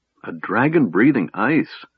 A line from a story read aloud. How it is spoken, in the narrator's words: Tass said wistfully